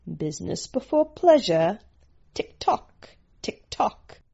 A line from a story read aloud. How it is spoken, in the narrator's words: The Omega man murmured